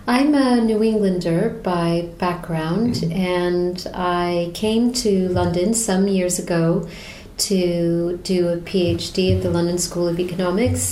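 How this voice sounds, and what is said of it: American accent. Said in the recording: “I anticipated a British accent and you are very clearly American.”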